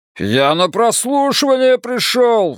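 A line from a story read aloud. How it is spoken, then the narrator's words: Wailing. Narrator (Russian): взвыл Островски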